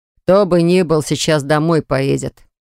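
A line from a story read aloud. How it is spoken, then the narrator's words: Gloomy. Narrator (Russian): мрачно отвечает Богдан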